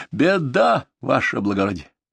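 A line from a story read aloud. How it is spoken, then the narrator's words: Hoarse wheeze. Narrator (Russian): прохрипел он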